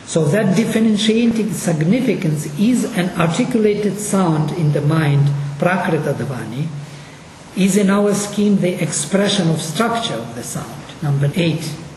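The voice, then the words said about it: Russian-accented English. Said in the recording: “my Russian English accent”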